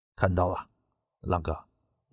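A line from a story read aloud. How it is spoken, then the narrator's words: Man with lowered voice. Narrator (Chinese): 一名黑衣男子压低声音说道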